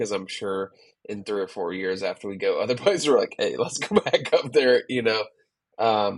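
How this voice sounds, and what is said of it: Usual voice. Nothing is said of it.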